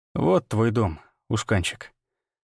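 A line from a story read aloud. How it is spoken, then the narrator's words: Muttered. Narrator (Russian): пробормотал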